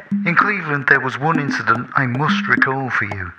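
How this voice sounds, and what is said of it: Imitates another person's voice. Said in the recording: “my Mal Evans impression”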